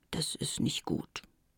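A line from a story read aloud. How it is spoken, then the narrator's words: Quiet. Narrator (German): sagte Madagaskar leise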